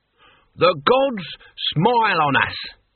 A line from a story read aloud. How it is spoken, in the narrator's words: he bellowed